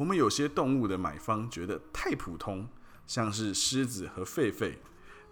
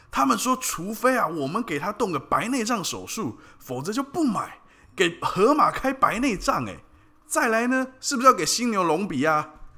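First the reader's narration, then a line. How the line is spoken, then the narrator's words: Father roaring. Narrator (Chinese): 爸爸大吼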